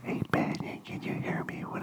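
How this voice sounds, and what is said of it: Whispering. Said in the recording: “why are you whispering it so the microphone can hear?”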